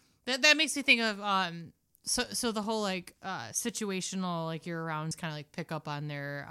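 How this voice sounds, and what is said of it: Usual voice. Nothing is said of it.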